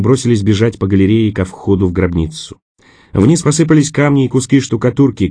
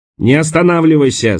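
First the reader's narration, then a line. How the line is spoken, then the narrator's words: Shouting. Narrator (Russian): закричал Харпер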